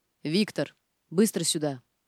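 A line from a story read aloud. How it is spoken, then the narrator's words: Loud booming bark. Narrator (Russian): зычно гаркнул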